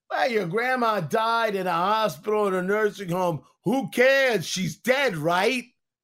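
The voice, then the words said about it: Imitates another person's voice. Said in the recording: “That was my Andrew Cuomo impression.”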